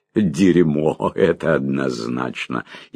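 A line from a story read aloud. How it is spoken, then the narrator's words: Loud laughter. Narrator (Russian): Лонли Локли расхохотался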